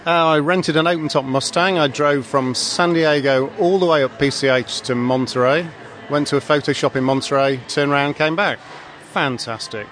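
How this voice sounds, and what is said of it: British accent. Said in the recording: “from the UK. ... You can tell from the accent.”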